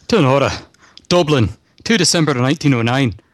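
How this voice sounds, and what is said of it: Attempted Irish accent sounding Scottish. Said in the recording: “you would have a uh, an Irish accent ... Ah, that was too Scottish”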